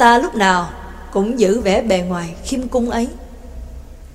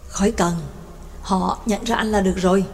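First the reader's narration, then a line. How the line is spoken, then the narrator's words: Gentle speech. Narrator (Vietnamese): Đồng Phương Chính nhẹ nhàng nói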